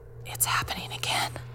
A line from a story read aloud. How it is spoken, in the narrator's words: She was really quiet, then whispered